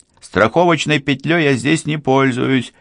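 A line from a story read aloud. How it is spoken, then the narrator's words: Shouting downward. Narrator (Russian): прокричал он вниз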